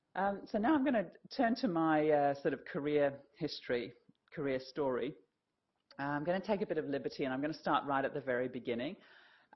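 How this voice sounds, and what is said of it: English accent with South African influence. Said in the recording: “explain my accent. So I was actually born in the northeast of England, in Yorkshire, and my family emigrated to South Africa when I was about 13 years old”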